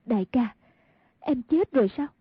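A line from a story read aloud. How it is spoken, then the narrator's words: Trembling voice. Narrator (Vietnamese): run run nói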